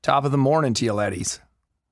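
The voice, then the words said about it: Attempted American accent, some Irish remaining. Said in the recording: “do your catchphrase in an American accent ... There's still a bit of it. In there.”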